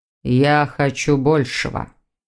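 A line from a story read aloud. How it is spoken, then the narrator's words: Man's grumble. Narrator (Russian): проворчал мужчина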